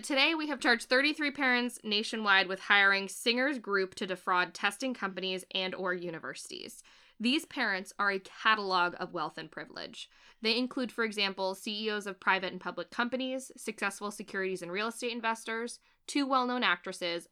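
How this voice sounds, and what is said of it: Formal, official announcer-style lawyer voice. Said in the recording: “Put on my lawyery voice.”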